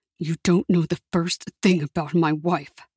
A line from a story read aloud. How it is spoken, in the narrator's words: Marcelino said through clenched teeth